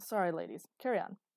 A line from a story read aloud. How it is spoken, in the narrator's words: An embarrassed grunt was followed by a